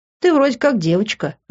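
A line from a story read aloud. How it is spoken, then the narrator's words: Laughing brother. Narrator (Russian): рассмеялся брат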